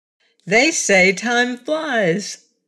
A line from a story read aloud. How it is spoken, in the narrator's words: laughed Button Bright